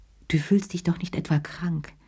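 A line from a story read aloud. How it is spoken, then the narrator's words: Plain. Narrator (German): fragte sie ihn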